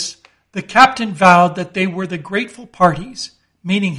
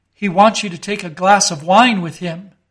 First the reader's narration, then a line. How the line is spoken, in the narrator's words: said the interpreter